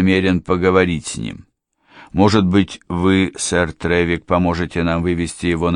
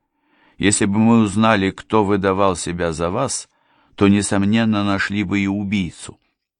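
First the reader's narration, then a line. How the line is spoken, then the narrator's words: Dry remark. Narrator (Russian): сухо заметил молодой человек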